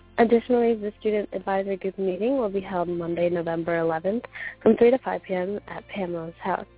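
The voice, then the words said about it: Slightly raspy voice. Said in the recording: “if my voice sounds a little bit raspy”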